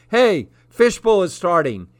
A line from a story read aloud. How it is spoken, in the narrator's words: he yelled